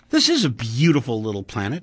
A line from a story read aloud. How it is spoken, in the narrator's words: he said